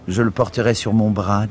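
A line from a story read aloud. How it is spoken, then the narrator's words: Plain. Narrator (French): dit Brim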